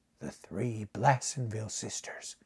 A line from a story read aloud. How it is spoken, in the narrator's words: muttered Buckner